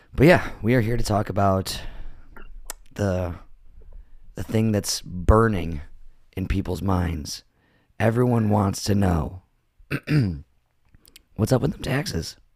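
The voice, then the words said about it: Voice affected by a cold. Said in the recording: “apologize for my voice... I'm uh, getting over a little cold.”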